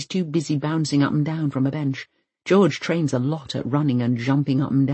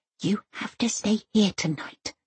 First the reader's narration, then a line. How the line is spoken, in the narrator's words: she whispers